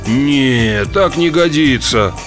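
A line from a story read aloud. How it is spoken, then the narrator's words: Groan. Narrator (Russian): простонал он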